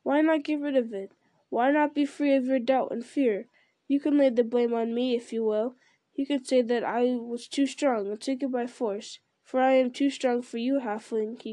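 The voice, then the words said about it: Softer voice. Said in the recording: “in a softer voice.”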